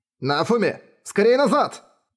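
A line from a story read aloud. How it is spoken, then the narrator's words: Shout. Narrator (Russian): крикнул Рен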